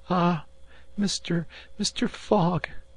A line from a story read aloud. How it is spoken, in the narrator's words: cried she, covering them with tears